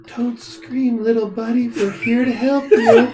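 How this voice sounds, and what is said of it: Creepy whisper. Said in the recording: “That's a creepy voice. ... I'm whispering. ... in a very creepy voice”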